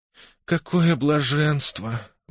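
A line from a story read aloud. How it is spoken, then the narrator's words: Young woman sighing. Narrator (Russian): вздохнула девица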